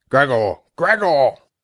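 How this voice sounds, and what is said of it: Deeper voice, urging call. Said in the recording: “he urged him on again in a deeper voice”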